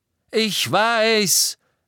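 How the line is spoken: Shouted. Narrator (German): brüllte Harry

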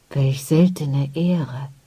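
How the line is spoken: Old man whispering. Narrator (German): flüsterte der Alte

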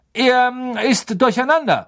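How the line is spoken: Calling out. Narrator (German): rief Lupin

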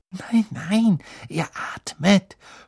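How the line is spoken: Whisper. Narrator (German): flüsterte Hermine

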